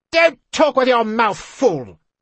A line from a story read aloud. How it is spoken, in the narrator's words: she snapped